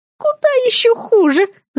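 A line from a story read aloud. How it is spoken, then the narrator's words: Strangled squeak. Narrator (Russian): сдавленно пискнула я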